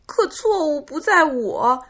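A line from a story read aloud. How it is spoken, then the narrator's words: Crying. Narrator (Chinese): 匹诺曹哭着说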